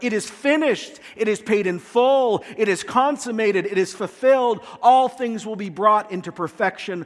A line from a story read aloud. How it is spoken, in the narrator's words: Jesus yells out